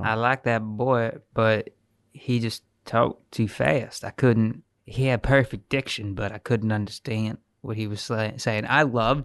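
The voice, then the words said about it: Put-on Southern US accent. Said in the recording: “I don't know why I affected the accent.”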